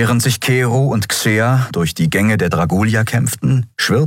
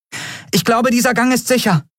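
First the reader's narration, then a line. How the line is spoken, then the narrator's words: Calling out. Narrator (German): rief sie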